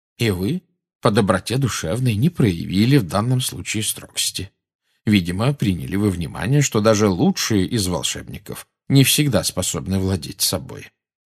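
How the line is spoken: Calm speech. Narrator (Russian): спокойно проговорил Дамблдор

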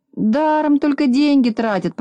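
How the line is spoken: Grumbling. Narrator (Russian): проворчал Незнайка

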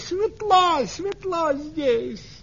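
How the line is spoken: Shouting. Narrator (Russian): улитка закричала

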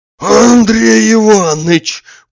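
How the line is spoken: Joyful hoarse wheeze. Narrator (Russian): прохрипел он радостно

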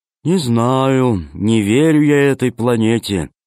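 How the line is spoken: Gloomy. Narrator (Russian): мрачно сказал Зеленый

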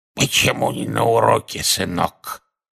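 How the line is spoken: Hoarse. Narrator (Russian): Одна из них прохрипела

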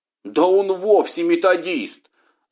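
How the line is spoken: Several voices shouting. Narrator (Russian): закричало несколько голосов

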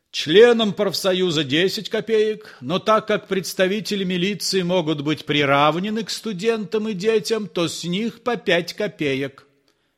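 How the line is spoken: Firm shout. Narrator (Russian): Остап закричал довольно твердым голосом

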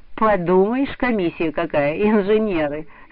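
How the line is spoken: Mocking laughter. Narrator (Russian): смеялась над ними Нюра

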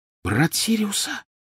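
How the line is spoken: Whisper. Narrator (Russian): прошептала она

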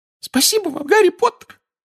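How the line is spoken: Squeaky. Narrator (Russian): пропищал Добби

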